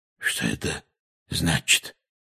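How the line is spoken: Hoarse question. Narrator (Russian): хрипло спросил дядя Вернон

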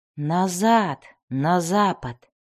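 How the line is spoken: Recalling mumble. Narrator (Russian): пробормотал он, припоминая слова Аластрель

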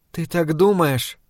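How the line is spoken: Quiet question. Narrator (Russian): тихим голосом спросила Эдит

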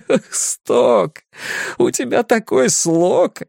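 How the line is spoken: Laughing. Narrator (Russian): Ричи смеялся

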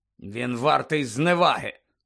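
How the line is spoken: Grumbled. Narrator (Ukrainian): буркнув містер Кравч

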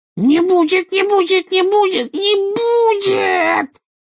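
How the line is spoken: Rising to a shriek. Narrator (Russian): Голос Кикимера поднялся до визга

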